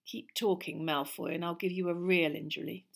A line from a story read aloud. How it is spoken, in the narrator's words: snarled Ron